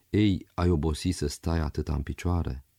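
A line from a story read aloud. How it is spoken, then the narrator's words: Gentle question. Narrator (Romanian): întrebând-o pe Zoia cu blândețe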